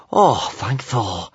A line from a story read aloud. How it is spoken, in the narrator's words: sighed Kamikaze